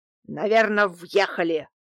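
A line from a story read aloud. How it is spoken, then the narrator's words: Angry shout. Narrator (Russian): выкрикнул зло Дмитрий Иванович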